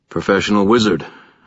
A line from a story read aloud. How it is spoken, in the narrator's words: I said